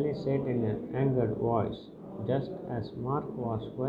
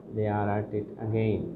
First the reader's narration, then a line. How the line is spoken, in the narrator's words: Sally said